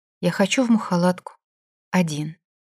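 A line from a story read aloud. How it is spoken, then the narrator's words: Quiet. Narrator (Russian): он тихо сказал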